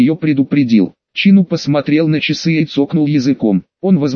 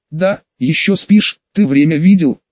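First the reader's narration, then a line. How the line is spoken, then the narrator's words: Agitated sister. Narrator (Russian): Голос сестры звучал взволнованно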